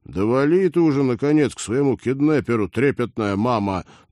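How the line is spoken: Grumbling. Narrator (Russian): проворчал Роджер

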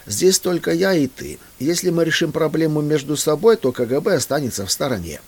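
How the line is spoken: Surprisingly calm despite fear. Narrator (Russian): Мысленно взывая к Богу о помощи, я на удивление совершенно спокойно сказал

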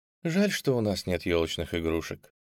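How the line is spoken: Sighing. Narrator (Russian): вздохнула Утер

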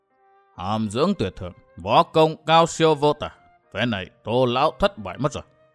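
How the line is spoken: Muttering to himself. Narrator (Vietnamese): lẩm bẩm một mình

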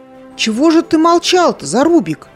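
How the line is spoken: Exclamation. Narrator (Russian): воскликнула Билана

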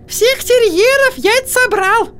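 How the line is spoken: Thin squeaky voice. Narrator (Russian): пропищала сестра Йеннифер тонким голоском

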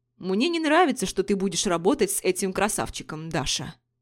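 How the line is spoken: Sudden harsh tone. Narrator (Russian): вдруг жестким тоном произнес Денис

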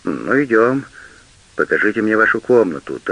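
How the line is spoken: Hurried. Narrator (Russian): торопливо говорит он

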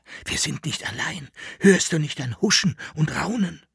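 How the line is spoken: Whispering. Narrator (German): flüsterte

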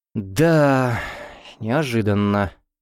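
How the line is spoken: Sighing. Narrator (Russian): вздохнул Кричко

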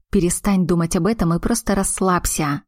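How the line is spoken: Growling. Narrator (Russian): рыкнул тот

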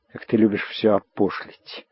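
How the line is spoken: Hateful whisper. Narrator (Russian): ненавидящим шепотом выговорила дочь

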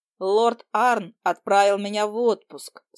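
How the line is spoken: Calm repetition. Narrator (Russian): спокойно повторила я

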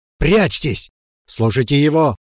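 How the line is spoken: Shout. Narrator (Russian): крикнула Ирма

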